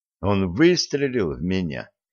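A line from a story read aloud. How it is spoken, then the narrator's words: Calm repetition. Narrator (Russian): спокойно повторил гостиничный детектив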